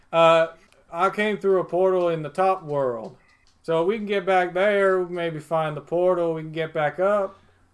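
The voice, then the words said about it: Put-on character accent, drifting. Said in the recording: “This accent's changing quickly”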